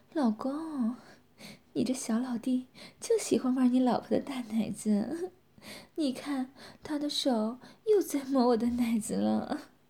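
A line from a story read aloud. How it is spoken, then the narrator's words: Laughing. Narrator (Chinese): 佳瑶笑着说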